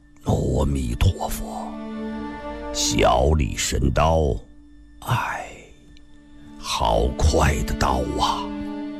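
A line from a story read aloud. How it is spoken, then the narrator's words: Low voice after silence. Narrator (Chinese): 新梅大师默然了半晌，低声地说道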